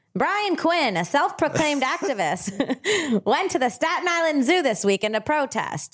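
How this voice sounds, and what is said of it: Old-timey 1920s style voice. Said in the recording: “read this in your 1920s voice? I know we're all fans of that accent.”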